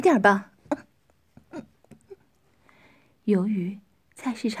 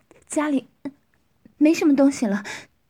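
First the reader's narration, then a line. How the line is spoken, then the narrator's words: Breathless woman. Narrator (Chinese): 女人喘息着说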